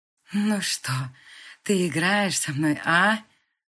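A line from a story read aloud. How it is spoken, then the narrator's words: Hoarse question. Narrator (Russian): хрипло спросил Алексей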